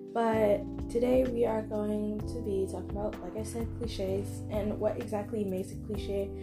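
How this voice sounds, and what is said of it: Scratchy, tired voice. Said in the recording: “my voice sounds really scratchy. I am literally so tired.”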